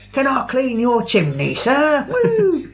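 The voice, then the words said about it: Put-on Cockney accent. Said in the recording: “get stuck in a Cockney accent”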